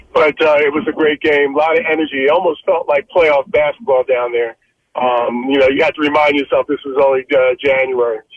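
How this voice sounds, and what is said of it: Slightly hoarse voice. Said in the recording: “you may be able to tell I'm a little hoarse. ... A little bit.”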